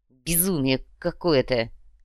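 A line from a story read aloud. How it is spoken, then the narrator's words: Angry mutter. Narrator (Russian): злобно пробормотал Тархан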